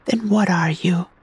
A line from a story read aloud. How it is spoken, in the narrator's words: I sighed